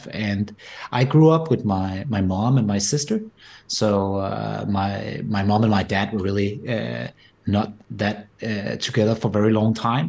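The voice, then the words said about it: Danish-accented English. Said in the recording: “my accent is not typically American or anything. It comes from the Nordics and rather Denmark.”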